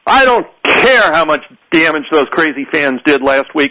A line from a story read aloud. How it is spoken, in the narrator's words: shouted